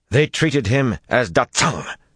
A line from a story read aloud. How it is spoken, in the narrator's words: Sulin growled, and some of the other maidens growled wordlessly in echo